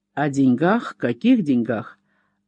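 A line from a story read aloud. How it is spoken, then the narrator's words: Frowning grumble. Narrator (Russian): нахмурившись, проворчал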